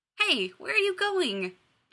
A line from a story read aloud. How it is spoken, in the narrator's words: Jack exclaimed